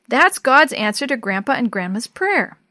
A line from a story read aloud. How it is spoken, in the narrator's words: exclaimed